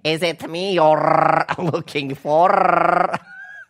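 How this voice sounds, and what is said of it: Put-on Lebanese accent, singing. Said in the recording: “With a Lebanese accent.”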